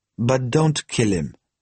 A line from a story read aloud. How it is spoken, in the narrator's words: he added dryly